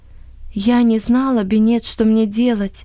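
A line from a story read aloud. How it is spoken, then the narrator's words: Sad, tired voice. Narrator (Russian): промолвила Анни печальным, усталым голосом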